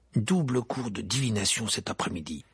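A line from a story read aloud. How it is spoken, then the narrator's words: Grumbled. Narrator (French): grogna Harry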